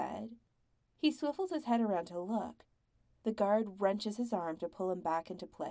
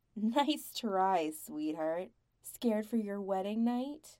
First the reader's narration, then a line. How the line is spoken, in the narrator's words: lashes out without thinking